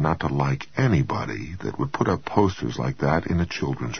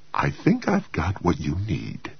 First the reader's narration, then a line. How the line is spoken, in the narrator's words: said cheerfully